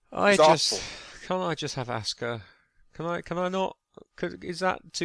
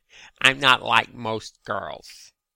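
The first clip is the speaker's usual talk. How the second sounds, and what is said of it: Mocking Valley Girl accent. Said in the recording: “Valley Girl accent”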